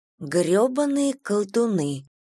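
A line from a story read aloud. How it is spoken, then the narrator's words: Sad agreement. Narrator (Russian): согласилась Виви, печально глядя на опустевший стакан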